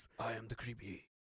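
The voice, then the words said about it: Deep creepy voice. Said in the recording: “he's got that, like, I'm creepy voice.”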